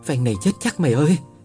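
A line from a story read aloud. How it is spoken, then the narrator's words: Fearful, trembling voice. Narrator (Vietnamese): Tôi xanh mặt, giọng run run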